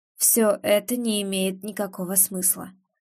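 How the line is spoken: Tired. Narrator (Russian): устало выдает

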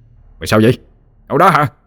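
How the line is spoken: Glaring shout. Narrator (Vietnamese): Anh Sang trợn quát lên

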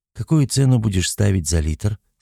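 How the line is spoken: Plain question. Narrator (Russian): спросила Алла

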